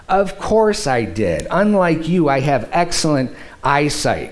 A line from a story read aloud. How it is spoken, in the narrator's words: said